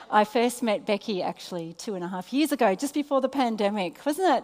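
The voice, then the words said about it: Australian accent. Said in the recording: “Can you handle an Australian accent?”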